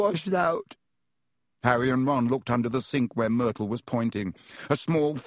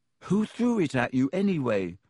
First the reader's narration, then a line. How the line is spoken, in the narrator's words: asked Harry